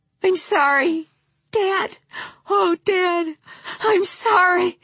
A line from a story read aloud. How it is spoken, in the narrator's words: his breath coming in short, jolting sobs